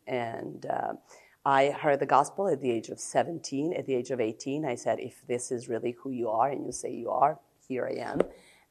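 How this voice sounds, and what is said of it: Serbian accent with American influence. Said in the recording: “I am from Serbia... I'm married to a pastor, an American. That's where the accent comes from.”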